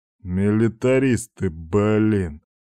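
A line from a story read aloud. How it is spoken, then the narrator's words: Good-natured snort. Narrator (Russian): Беззлобно фыркнул Степан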